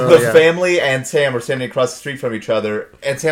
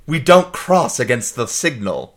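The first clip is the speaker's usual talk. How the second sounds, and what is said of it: Affected high-class accent. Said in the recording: “in kind of an affected high-class accent”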